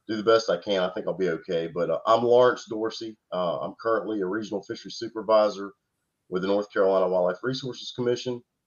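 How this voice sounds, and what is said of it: Slightly off, sick-sounding voice. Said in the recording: “I'm fighting the crud a little bit here, so my voice is a little bit off”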